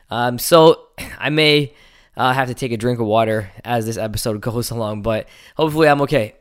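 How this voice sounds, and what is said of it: Hoarse, partly lost voice. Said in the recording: “I have lost my voice a little bit”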